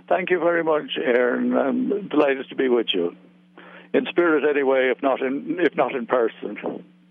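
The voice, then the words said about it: Irish accent. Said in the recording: “it's always a treat to hear an Irish accent”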